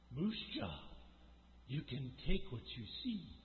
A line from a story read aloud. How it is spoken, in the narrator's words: she said in a husky voice